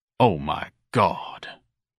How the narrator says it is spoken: Ignatius muttered

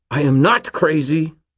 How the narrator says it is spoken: Fitz snarled

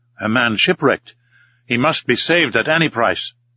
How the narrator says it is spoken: in an agitated voice exclaimed

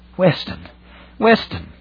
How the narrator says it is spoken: he gasped

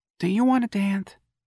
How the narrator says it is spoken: asked wistfully

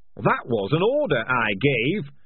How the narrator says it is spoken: roared Hammond Pork

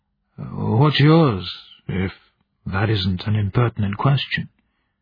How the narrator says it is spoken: smiled

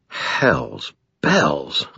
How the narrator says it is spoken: I breathed

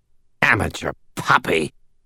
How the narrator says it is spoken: Namshiel snarled

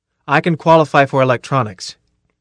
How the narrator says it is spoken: Carl said firmly

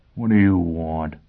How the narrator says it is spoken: Foyle growled

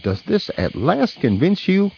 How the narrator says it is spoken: at great length I cried triumphantly

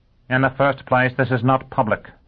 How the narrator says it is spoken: Dagenham snapped

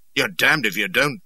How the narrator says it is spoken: chuckled he, very amused

